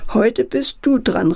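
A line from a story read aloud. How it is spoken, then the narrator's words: Calling out. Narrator (German): rief Herr Clown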